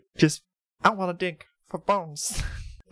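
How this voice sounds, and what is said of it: Not-great Guilmon impression. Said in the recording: “my best Gilmon impression. Wasn't great.”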